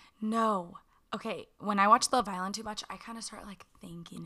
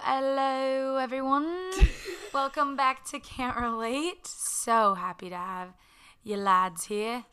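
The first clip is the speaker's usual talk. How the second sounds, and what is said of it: Put-on British accent, fluent. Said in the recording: “trying to be inclusive of our British listeners ... you can do an accent so flawlessly. Like, it rolled off the tongue”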